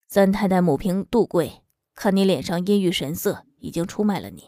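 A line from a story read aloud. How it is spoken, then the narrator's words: Man speaking quietly. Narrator (Chinese): 男人这才对周以慈小声说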